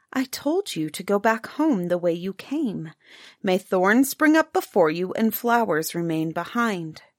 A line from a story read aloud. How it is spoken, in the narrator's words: the princess approached it and said in a more gentle voice